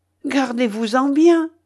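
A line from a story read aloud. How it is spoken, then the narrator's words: Exclaimed. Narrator (French): s'écria Ivanhoé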